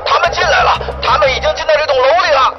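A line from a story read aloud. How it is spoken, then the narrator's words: Hysterical shout. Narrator (Chinese): 男子身边的一个同伴歇斯底里地喊道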